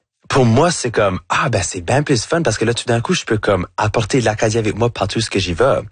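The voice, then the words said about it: Acadian French accent. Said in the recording (French): “votre accent acadien ... j'ai un accent qui va jamais être neutre”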